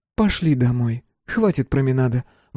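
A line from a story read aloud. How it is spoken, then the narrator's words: Sighing. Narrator (Russian): вздохнув, сказала Мила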